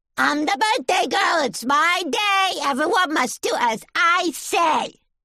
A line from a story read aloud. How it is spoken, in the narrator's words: Stamp your foot and shout